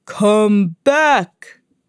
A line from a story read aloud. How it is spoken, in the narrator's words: he roared